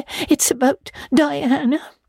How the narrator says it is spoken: sobbed Anne luxuriously

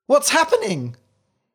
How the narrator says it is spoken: he cried

